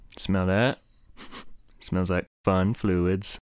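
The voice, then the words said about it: Character voice playing God. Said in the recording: “my impression of God”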